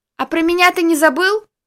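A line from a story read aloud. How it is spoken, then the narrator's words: Shout from the doorway. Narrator (Russian): крикнула от дверного проема Дарья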